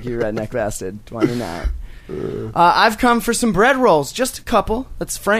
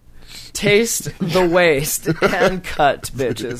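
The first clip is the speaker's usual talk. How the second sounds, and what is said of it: Snobby director character voice. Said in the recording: “good snobby director impression ... You want a snobby director?”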